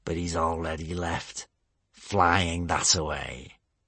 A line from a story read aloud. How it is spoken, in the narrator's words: hissed Gumboyle